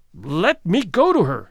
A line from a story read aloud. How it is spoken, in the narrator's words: cried Lorison, again struggling